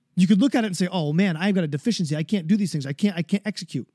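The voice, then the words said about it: Fast, excited, stumbling speech. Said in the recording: “my voice is going fast. I'm stumbling words. I probably sound like an eighth grader. But I'm excited about it.”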